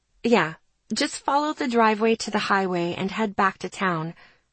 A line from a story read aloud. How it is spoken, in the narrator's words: I said gently